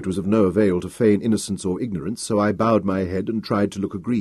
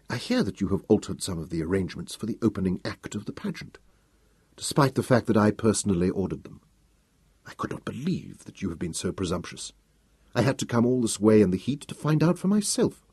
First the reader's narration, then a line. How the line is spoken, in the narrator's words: it was almost a whisper